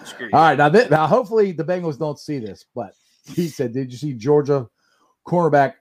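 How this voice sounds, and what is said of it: Usual voice. Nothing is said of it.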